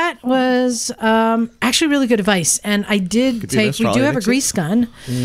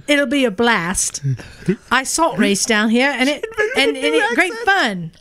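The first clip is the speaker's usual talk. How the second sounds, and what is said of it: Attempted Australian accent. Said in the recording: “This is a phenomenal accent. ... This is not at all an Australian accent.”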